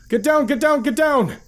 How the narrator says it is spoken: I yelled at Lampus and Deline

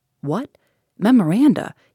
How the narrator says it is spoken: exclaimed

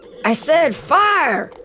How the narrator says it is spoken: Raziel screams

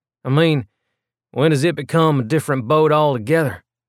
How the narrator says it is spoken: Holden sighed

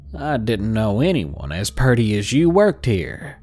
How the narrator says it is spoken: he said in a heavy southern accent

